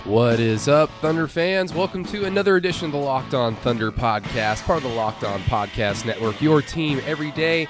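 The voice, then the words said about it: Stuffy, congested voice. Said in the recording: “if you can't tell by my voice, my goodness, I'm very sorry you have to sit here and listen to my allergies”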